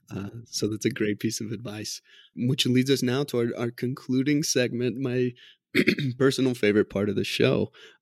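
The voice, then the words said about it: Strained, failing voice. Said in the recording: “I'm losing my voice over here”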